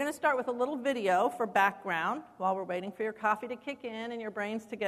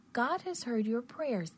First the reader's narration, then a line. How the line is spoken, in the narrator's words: the angel said kindly